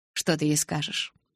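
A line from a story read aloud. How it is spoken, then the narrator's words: Quiet question. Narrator (Russian): тихо спросил Эдвард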